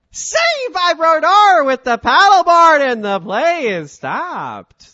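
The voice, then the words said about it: Sportscaster impression, trailing off. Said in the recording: “You got to trail off real nicely... of my Doc Emrick impression.”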